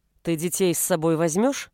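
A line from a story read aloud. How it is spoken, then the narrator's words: Plain. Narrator (Russian): спросил он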